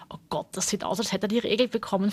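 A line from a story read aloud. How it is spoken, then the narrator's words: Excited whisper. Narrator (German): flüsterte Nadja Vera aufgeregt zu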